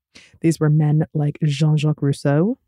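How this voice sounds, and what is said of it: Exaggerated French accent on name. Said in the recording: “that is my French accent”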